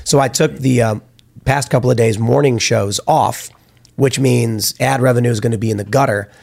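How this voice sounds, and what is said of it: Rough, damaged-sounding voice. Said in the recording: “My voice is all screwed up. I don't even know why, because it's been like 6 days now, and I'm not even sick or anything. It's just not getting better.”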